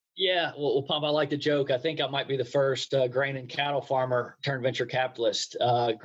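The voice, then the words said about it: Southern American accent. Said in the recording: “you don't talk like I talk ... you ended up with a Southern accent”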